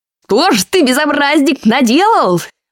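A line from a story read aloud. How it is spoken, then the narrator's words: Terrified screaming witch. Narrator (Russian): в ужасе завопила колдунья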